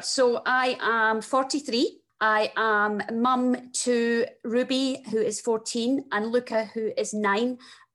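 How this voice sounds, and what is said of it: Very strong Scottish accent. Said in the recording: “you can hear from my very strong Scottish accent that I am Scottish”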